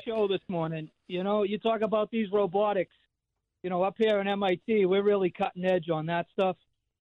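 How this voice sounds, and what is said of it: Thick Boston accent. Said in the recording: “I want to hear a Boston accent ... is for real. It's not just me sitting in a room pretending and throwing on a fake, thick Boston accent. It's the real deal.”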